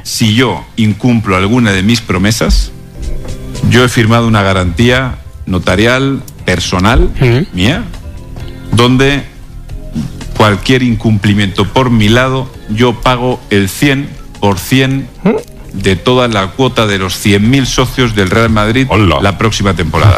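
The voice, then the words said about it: Mexican Spanish accent. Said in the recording (Spanish): “El del acento mexicano”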